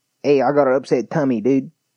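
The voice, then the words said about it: Attempted Florida accent. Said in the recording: “I don't know a Florida accent. I think it's just trash people. Because it's technically the South. They don't have nice Southern accents.”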